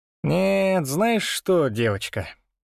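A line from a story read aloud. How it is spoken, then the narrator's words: Drawled. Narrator (Russian): протянул я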